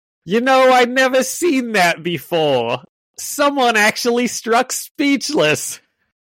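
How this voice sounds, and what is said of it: Performs a character's voice. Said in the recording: “good Fancy Dan impression ... I'll give him my best”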